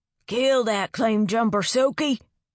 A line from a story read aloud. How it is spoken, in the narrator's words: bellowed